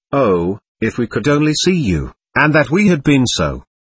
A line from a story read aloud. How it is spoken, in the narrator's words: we had all repeatedly exclaimed